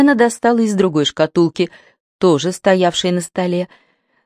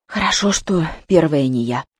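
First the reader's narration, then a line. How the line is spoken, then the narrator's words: Whisper. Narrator (Russian): прошептала Зоя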